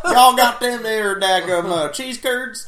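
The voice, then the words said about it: Exaggerated Southern accent. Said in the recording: “Southern accent ... There's much stronger Southern accent than this.”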